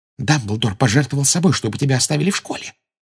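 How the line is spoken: Whisper. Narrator (Russian): прошептала Гермиона

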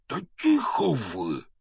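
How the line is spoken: Hissing. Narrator (Russian): снова прошипел Хагрид

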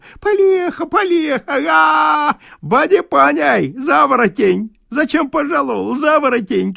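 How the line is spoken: Shouting through laughter. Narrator (Russian): кричал сквозь смех

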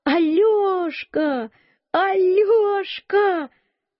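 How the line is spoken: Shouting. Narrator (Russian): закричала

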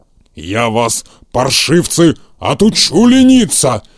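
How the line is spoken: Fierce growl. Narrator (Russian): свирепо зарычал он

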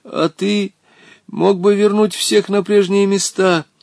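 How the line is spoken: Frightened. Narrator (Russian): испуганно Волька

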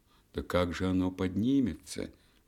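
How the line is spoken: Sighing. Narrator (Russian): вздохнула ночь

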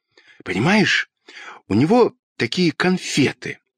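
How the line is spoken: Fast whisper. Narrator (Russian): быстро зашептал Петька

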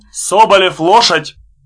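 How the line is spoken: Officer's shout. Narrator (Russian): офицер и крикнул

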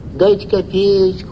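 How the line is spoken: Drawling nasal whine. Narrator (Russian): гнусавил протяжный дурачок

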